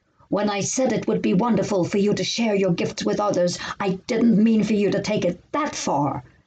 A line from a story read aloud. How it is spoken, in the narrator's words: snapped the prof